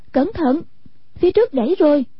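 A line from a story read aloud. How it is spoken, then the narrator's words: Cry of warning. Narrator (Vietnamese): Hoàng Dung kêu lên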